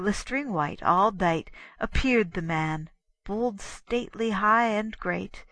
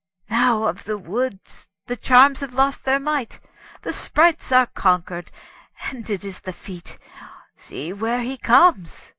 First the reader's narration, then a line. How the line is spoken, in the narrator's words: The hermit cried, upstarting from his seat